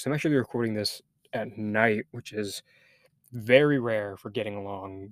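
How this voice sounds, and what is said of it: Tired, worn-down voice. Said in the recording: “July has just really worn me down, as I'm sure you can hear it in my voice.”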